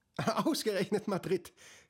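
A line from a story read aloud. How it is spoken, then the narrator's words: Mother speaking and laughing. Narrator (German): hört er seine Mutter sagen und lachen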